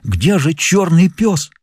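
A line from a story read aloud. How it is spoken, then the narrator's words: Exclaimed. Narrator (Russian): воскликнув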